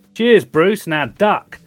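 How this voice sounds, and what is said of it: Put-on Australian accent. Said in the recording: “an Australian brogue”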